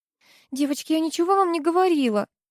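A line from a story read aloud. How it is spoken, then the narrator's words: Pleading. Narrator (Russian): взмолилась Руднева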